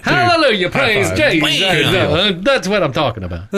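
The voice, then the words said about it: Weird put-on accent. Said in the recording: “some weird accent”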